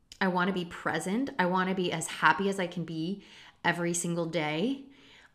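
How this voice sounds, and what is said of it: Emotional, choked-up voice. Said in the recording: “Wow, I'm getting emotional.”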